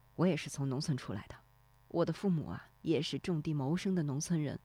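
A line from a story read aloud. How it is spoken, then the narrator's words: Low voice. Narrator (Chinese): 低声说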